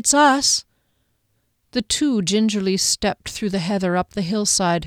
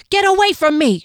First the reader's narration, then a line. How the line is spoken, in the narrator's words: screamed